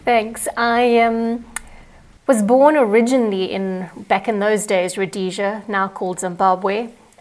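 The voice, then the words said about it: A very cool accent. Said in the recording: “your very cool accent”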